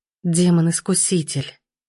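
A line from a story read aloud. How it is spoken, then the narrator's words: Husky purr. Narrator (Russian): промурлыкала хрипло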